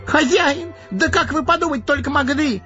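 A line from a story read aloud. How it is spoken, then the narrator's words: Wailing, gardener. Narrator (Russian): завопил садовник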